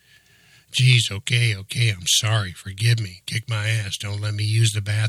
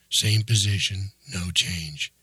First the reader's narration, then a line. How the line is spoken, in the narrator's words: he whispered to himself